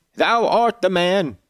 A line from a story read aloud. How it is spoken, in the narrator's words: cried Jabes after a solemn pause